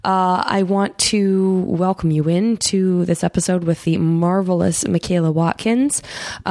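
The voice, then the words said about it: Voice affected by a heavy cold. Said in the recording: “as you can probably hear from my voice, I also have a cold. Um, kind of a doozy of a cold.”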